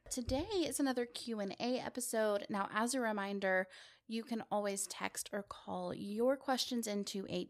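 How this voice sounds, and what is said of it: Voice slightly off from a cold. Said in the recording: “I have been kind of coming down with a cold, so please forgive me if my voice is a little bit off ... might sound weird”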